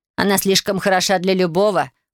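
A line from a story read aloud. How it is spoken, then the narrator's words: Scornful snort. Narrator (Russian): фыркнула Наира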